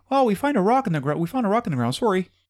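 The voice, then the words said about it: Weak put-on Canadian accent. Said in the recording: “That's my Canadian accent. Is that any good? ... No.”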